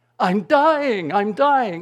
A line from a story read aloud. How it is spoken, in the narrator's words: She cried out again